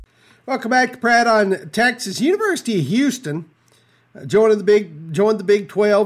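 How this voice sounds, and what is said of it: Authentic Texas accent. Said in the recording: “the real talk of Texas with the authentic accent”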